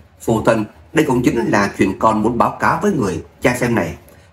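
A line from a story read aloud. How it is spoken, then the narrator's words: Smiling. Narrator (Vietnamese): Ngô Như Trạch mỉm cười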